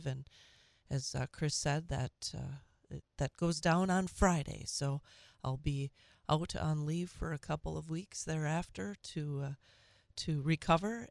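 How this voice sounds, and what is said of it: Audibly affected, unwell voice. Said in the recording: “as you can hear from my voice,”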